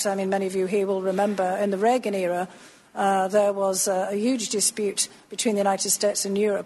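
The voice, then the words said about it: Slight Northeast English accent. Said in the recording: “you do detect a bit of an accent there... She said she was the daughter of a coal miner in Northeast England”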